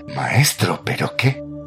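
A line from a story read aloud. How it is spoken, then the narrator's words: Hissing. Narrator (Spanish): Rafael siseó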